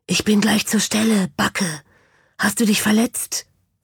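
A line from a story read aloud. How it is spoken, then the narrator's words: Whisper. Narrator (German): flüsterte es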